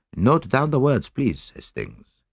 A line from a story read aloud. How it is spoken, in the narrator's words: said Poirot